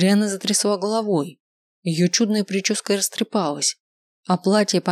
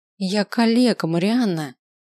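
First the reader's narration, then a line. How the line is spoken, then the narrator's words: Hissed through teeth. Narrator (Russian): зашипела сквозь зубы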